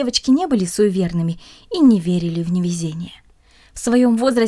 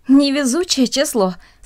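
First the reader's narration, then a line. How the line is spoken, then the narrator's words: Said, then laughing. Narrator (Russian): сказала одна из них и засмеялась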